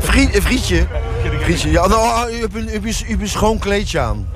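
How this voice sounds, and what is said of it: Attempted Flemish accent. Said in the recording (Dutch): “Doe eens je beste Vlaamse accent.”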